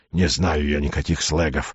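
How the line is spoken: Moaning. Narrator (Russian): застонал он

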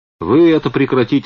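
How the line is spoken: Plain. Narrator (Russian): сказал Модест

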